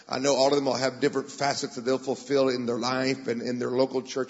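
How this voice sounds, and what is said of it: American accent. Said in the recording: “I am American, as you can tell by my beautiful accent.”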